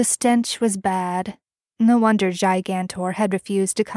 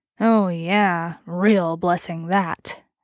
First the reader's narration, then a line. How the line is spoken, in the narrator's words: Bobby grunted